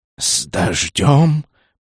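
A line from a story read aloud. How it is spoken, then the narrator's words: Hissing lightning. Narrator (Russian): прошипела молния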